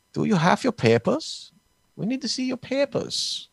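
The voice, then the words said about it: Put-on German accent. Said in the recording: “a German accent”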